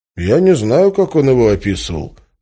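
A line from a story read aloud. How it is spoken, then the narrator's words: Calm. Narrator (Russian): спокойно сказал Бесат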